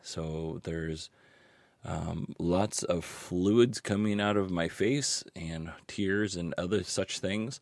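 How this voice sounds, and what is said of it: Hoarse sick voice, cracking. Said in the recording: “You can probably tell by my voice that I am sick... I am losing my voice... I can't tell if I sound like a really cool smoker guy or just a really pathetic teenage loser because it just cracks at random times”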